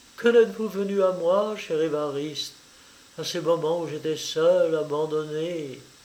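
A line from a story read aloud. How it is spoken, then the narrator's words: Sighing. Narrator (French): soupira-t-elle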